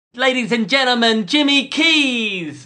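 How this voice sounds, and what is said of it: Imitates another person's voice. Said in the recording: “your best impression ... that's Mick Jagger ... the impression of Mick Jagger in introducing Jimmy Keys”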